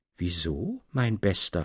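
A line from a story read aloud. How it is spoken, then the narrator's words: Plain question. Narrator (German): fragte er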